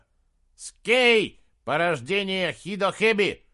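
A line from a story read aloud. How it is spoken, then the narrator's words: Shout. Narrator (Russian): крикнул Аннаи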